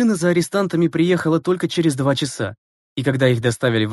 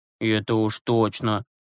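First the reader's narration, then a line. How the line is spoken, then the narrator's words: Muttering to himself. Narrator (Russian): пробормотал про себя Юрасик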